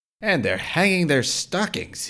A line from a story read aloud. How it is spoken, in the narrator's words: snarled with a sneer